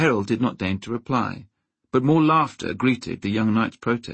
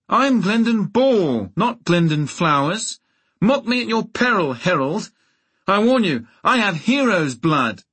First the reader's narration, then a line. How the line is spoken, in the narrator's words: He wheeled his mount in an angry circle and shouted